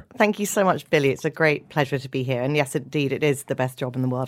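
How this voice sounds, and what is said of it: British accent. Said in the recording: “your British accent ... London”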